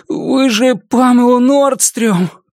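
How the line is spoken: Moaning. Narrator (Russian): простонал парень

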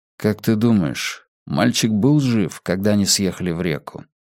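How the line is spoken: Quiet question. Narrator (Russian): тихо спросил Йона

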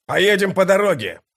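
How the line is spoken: Shout. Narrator (Russian): прокричал он своим спутникам

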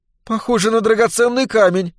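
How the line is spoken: Intrigued exclamation. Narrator (Russian): заметно заинтересовавшись, воскликнула Глэдис

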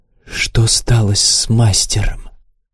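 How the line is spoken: Weak wheezing whisper. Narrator (Russian): Ему казалось, что он кричит, кричит до судорога в горле, но сил хватило лишь на свистящий шепот

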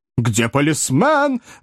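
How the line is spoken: Shout. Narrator (Russian): закричал мистер Снотграсс

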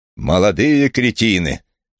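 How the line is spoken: Loud snort. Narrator (Russian): громко фыркнул Рэймонд Делл

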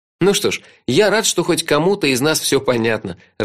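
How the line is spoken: Laughing. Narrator (Russian): рассмеялся я

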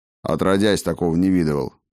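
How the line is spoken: Grumbled. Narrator (Russian): проворчал Бреннар

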